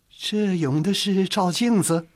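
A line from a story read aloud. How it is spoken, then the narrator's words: Laughing question. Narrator (Chinese): 钱度笑着问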